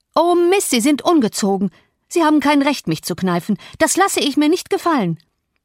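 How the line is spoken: Shouted. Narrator (German): schrie

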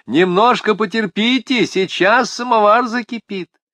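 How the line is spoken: Shouted from window. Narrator (Russian): Ибанат, высунувшись в окошко, крикнула

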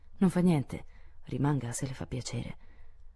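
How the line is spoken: Gentle, surprised boy. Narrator (Italian): il ragazzo sorrise e, sebbene sorpreso, disse con voce gentile

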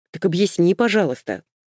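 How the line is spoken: Angry exclamation. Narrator (Russian): сердито восклицает Шейн

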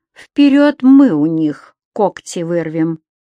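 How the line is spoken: Slow speech. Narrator (Russian): так же медленно сказал Леша

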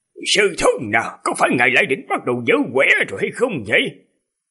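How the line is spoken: Angry. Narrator (Vietnamese): Hoàng Hạc giận dữ nói

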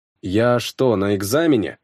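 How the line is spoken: Grumbled. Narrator (Russian): проворчал

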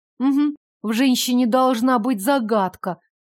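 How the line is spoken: Grumbled. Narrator (Russian): пробурчала

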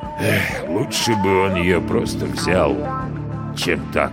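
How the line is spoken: Mumble. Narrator (Russian): пробормотал говорящий

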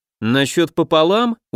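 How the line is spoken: Clarifying question. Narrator (Russian): уточнил я

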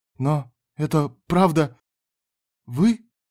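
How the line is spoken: Trembling voice. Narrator (Russian): спросил Мартин дрожащим голосом

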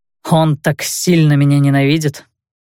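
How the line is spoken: Wry snort. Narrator (Russian): хмыкнул хакер

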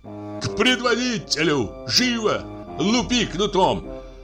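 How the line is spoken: Desperate shout. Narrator (Russian): крикнул с отчаянием

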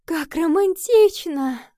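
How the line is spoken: Exclaiming with loud sigh. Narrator (Russian): воскликнула Гарриет, громко вздохнула

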